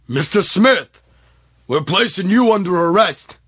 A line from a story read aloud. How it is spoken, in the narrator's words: A deep voice called out to him